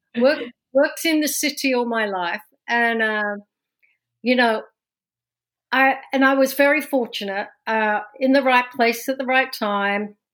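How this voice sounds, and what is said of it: London English accent. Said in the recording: “as you can tell from my from my accent, I was not born and raised in New Jersey ... this accent's from London, born and raised”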